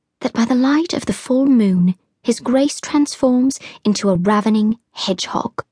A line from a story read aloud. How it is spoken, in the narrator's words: whispered